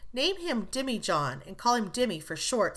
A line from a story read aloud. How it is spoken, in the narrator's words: said Laurie